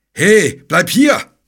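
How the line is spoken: Bellowed after someone. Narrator (German): brüllte der Ritter ihm nach

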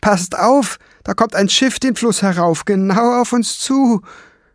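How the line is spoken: Dwarf suddenly calling out. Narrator (German): rief der Zwerg plötzlich

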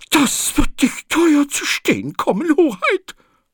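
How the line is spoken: Hissing woman. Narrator (German): zischte sie

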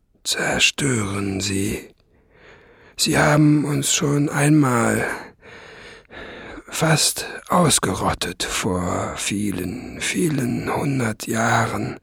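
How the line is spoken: Old dragon, tired voice. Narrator (German): sagte der alte Drache mit müder Stimme

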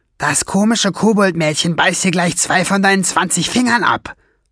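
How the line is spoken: Hissing. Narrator (German): fauchte Schwefelfell

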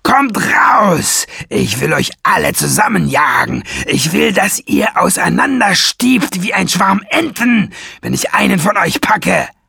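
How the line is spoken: Roaring. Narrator (German): Brüllend

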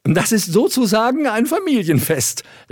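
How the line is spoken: Laughing young lady. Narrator (German): lachte das Burgfräulein

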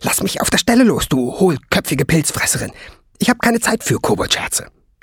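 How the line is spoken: Spitting angrily. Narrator (German): fauchte sie

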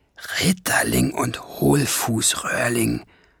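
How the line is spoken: Whispering. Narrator (German): flüsterte Schwefelfell

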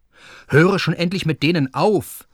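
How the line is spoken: Indignant call. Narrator (German): rief entrüstet

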